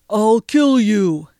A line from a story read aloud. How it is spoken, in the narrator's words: roared